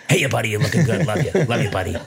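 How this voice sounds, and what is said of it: Adam Sandler impression. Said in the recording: “Adam Sandler will walk up to an old man and go, "Hey, ya, buddy."”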